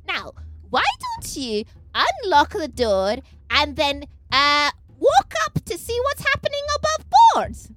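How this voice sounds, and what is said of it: Sweet little girl voice. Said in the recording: “in my sweetest little girl voice.”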